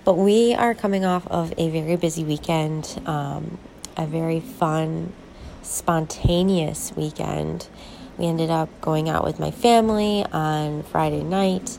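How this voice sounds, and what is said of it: Slightly congested, off-sounding voice. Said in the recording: “I'm kind of coming down with a cold, so if you hear my voice is a little off”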